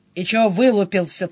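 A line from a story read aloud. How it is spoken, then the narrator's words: Grumbled. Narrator (Russian): проворчал Денис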